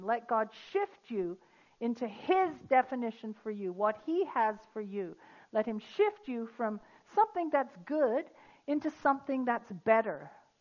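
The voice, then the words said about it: British accent. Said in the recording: “I'm British. Don't I look British and sound British?”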